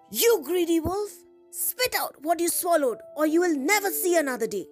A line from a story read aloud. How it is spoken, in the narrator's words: the ranger shouted